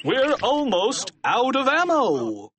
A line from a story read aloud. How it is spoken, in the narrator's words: Captain Underpants shouted